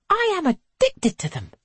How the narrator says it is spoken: she says happily

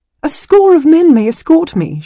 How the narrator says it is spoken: she blurted

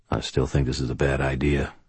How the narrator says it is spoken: Thomas said quietly

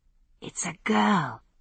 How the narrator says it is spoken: I murmured

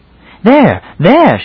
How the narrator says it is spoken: she cried suddenly

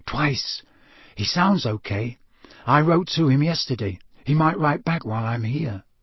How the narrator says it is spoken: said Harry softly

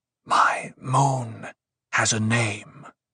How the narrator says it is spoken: Paul whispered

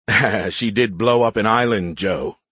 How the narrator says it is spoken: he chuckled

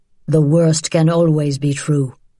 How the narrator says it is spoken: Papa said grimly

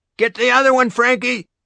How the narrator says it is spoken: Grandpop shouts

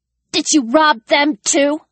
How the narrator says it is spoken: Ellie spat

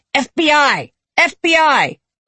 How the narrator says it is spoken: Janice … shouts

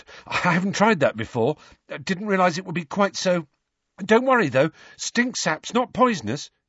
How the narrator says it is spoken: he added nervously

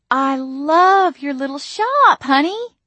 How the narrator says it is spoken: Mama cooed

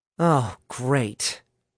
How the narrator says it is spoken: Alice groaned from her vantage point on the ceiling

